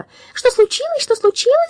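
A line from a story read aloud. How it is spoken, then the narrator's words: Rapid anxious chatter. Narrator (Russian): затараторила она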